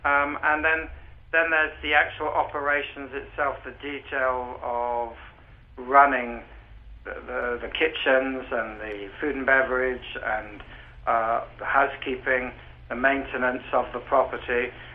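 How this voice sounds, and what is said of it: Distinctive British accent. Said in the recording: “You still have a distinctive British accent.”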